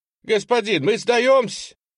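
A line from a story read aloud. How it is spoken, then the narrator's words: Shouted. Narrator (Russian): выкрикнул первый из миллицких дезертиров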